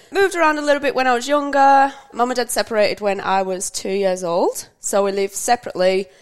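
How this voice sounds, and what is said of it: Northwest English accent. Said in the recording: “as you can tell from the, the accent, um, ... from the UK, northwest of England”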